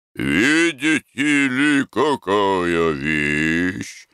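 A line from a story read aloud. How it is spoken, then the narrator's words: Drawling. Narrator (Russian): Протянул Спорцевадзе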